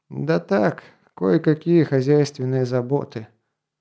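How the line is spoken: Glum reply. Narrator (Russian): уныло отозвался Грон

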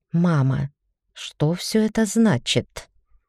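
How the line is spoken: Barely audible whisper. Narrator (Russian): донесся едва различимый шепот

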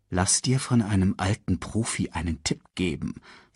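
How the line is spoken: Quiet speech. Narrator (German): sagte Mufasa leise

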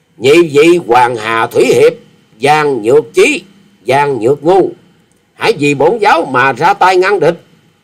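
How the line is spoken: Loud commanding shout. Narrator (Vietnamese): Quyết Ma Thể Y Nhân quát to ra lệnh

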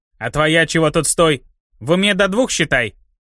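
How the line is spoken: Barking shout. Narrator (Russian): Рявкнул Шныга куда-то в сторону

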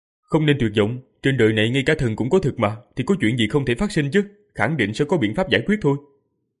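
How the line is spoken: Loud, consoling. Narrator (Vietnamese): Diệp Phàm lớn tiếng an ủi và khuyên giải mọi người, nói

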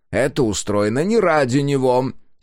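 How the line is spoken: Angry declaration. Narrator (Russian): сердито заявил Каллен

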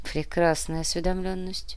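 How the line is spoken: Muttered. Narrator (Russian): пробормотал мистер Икс

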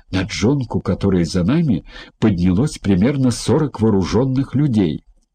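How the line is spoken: Whispered. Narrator (Russian): она прошептала

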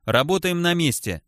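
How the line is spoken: Plain. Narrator (Russian): ответил напарник

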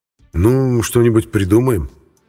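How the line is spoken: Uncertain answer. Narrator (Russian): я как-то неуверенно ответил

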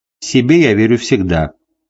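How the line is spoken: Calm. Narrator (Russian): спокойно сказал Макрон

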